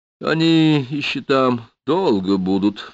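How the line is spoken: Sighing. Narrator (Russian): вздохнула

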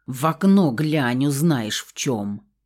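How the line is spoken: Angry hiss. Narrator (Russian): зло прошипела я

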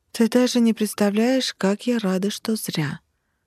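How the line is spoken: Solemn announcement. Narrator (Russian): торжественно объявила я

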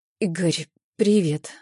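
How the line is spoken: Timid. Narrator (Russian): робко начинаю я

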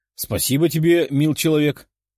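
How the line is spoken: Chuckling. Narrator (Russian): хохотнула она

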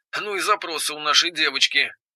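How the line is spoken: Grumbling through earpiece. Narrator (Russian): проворчал в наушнике голос Семена Аркадьевича

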